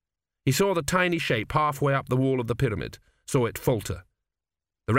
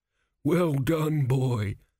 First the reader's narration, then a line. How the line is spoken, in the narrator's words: groaned a crumbling mummy